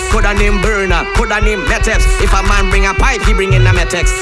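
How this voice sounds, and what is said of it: Trinidadian dialect. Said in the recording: “I coming with me Trinilingo... I ain't changing my dialect, my patois”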